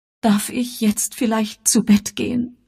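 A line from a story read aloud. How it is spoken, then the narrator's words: Tearful, whiny question. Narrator (German): fragte Elvira mit weinerlicher Stimme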